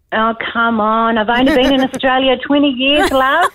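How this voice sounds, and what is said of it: New Zealand accent. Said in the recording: “a Kiwi accent”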